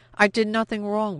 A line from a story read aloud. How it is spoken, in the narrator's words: Peretsky cried, trying to pull free of Paul's grasp